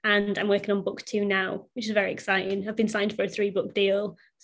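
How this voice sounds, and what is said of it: Northern English accent. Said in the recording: “I'm originally from Bradford in the north of England, hence the accent”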